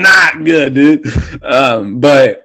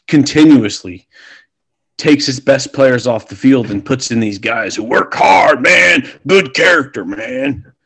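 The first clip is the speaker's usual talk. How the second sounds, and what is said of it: Poor John Gruden impression. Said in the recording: “that was a horrible impression.”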